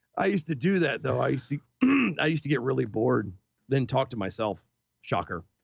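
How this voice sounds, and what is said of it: Hoarse, gravelly, fading voice. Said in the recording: “I am so losing my voice. ... Yeah, you are. You don't do the gravel because you're gonna lose it. ... Your voice is really going Alex Jones right now.”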